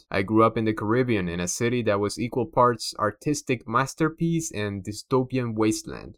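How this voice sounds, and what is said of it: Cuban Spanish accent. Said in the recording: “in case my accent didn't give me away, I'm a proud Cuban immigrant”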